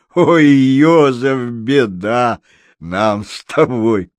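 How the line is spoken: Laughing while telling. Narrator (Russian): Марта, смеясь, рассказывала фрау Эльзе

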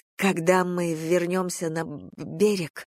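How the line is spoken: Stammering. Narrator (Russian): произнесла я, запинаясь

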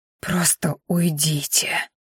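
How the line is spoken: Hoarse wheeze. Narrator (Russian): просипела девушка

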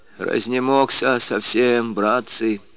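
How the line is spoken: Weak old man's voice. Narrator (Russian): слабым голосом ответил хитрый старик

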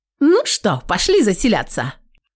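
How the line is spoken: Playful. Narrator (Russian): подмигнула нам рыжая

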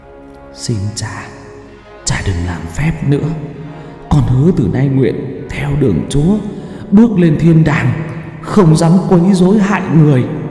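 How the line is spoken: Very soft and gentle. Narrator (Vietnamese): Tao nói nhỏ nhẹ lắm

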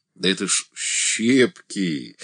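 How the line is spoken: Forced laughter. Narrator (Russian): натянуто захохотал Бутенин

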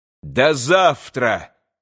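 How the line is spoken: Shout. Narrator (Russian): крикнул опять Иван

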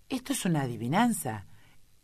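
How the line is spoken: Indignant exclamation. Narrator (Spanish): exclamó finalmente, más indignado que antes

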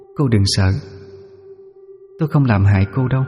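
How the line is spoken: Soft eerie echoing voice. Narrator (Vietnamese): Cô ấy khẽ cất giọng âm u, vang vang trong gió

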